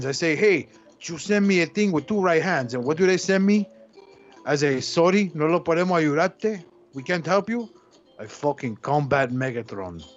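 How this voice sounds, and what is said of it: Put-on character accent. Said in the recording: “my accent is so good”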